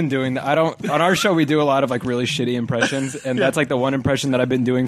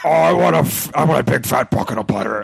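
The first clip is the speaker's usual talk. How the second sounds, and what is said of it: Imitates another person's voice. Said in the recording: “My impression of him sounds like Richard Nixon ... it sounds nothing like him ... But not a bad Richard Nixon”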